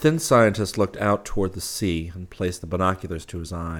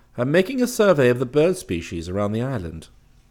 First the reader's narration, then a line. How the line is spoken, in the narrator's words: he said calmly